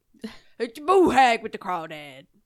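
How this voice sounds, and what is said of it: Attempted Louisiana accent. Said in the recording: “Louisiana accent ... It's terrible.”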